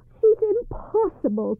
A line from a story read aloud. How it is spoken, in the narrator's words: cried the mistress